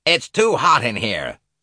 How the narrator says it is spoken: snapped Miss Van Schuyler

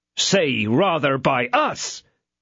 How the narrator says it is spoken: cried D'Artagnan

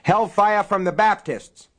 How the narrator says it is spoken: someone yelled from outside

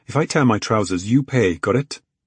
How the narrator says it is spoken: Robbie chuckled

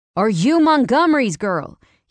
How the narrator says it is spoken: shouted

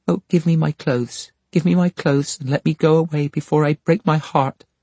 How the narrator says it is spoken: she exclaimed, sobbing with her hands before her face

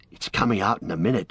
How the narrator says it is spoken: whispered Pippin to Merry

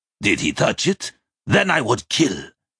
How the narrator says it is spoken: he growled

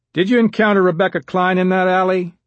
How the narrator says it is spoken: George Andrews asked in a loud voice

